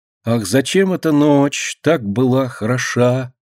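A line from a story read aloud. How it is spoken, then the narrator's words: Slow singing. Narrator (Russian): Медленно запевает она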